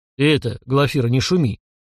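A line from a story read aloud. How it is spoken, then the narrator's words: Deep, embarrassed bass. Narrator (Russian): забасил урядник, еще больше смущаясь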